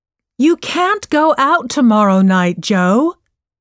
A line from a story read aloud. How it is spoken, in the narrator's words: shouted Joe's mom